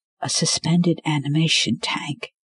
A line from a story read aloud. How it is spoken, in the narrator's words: said, whispering as if the ghost of unknown surgeons could be listening